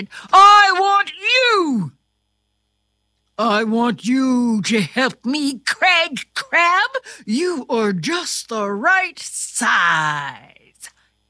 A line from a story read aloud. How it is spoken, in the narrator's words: King Crab pointed right at Craig and shouted